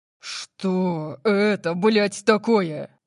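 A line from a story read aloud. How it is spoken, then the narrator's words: Roaring. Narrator (Russian): Взревел он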